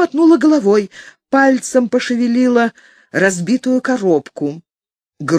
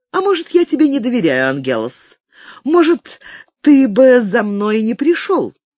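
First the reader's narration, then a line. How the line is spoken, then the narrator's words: Laughing. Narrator (Russian): тоже засмеялся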